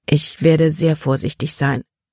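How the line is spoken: Plain. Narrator (German): sagte

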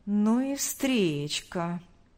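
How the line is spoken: Drawling. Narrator (Russian): протянул Павел

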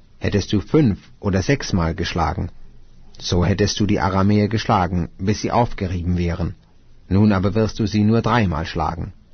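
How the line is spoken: Man of God, angry. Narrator (German): Da wurde der Mann Gottes zornig auf ihn und sprach

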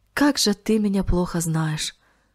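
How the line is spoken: Sighing. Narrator (Russian): вздохнул он

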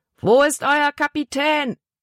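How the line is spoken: Big man roaring. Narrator (German): brüllte der große Mann

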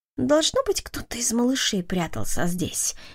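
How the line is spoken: Muttered. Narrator (Russian): пробормотал Джарвис

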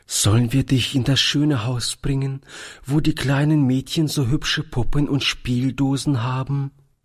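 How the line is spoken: Trembling voice. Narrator (German): fragte Toni mit zitternder Stimme

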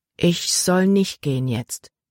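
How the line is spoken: Plain. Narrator (German): sagte sie

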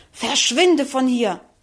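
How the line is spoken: Angry hiss. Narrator (German): fauchte wütend

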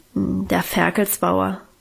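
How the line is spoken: Embarrassed grumble, head lowered. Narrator (German): brummte Guste noch verlegener, mit gesenktem Kopf

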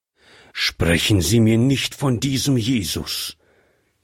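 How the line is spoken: Angry old man outburst. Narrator (German): entfuhr es wütend dem alten Mann

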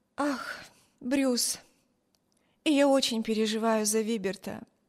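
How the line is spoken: Sighing, worried. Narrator (Russian): вздохнула Эми

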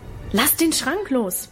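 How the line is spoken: Bellowed. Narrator (German): brüllte er

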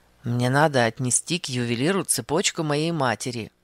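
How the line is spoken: Plain. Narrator (Russian): наконец сказал он

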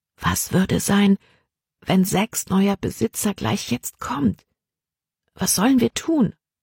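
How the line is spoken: Said quietly. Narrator (German): sagte sie leise

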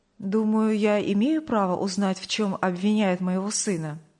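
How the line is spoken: Soft, calm, firm reply. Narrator (Russian): довольно мягко, спокойно, но убежденно ответил Сергей Павлович

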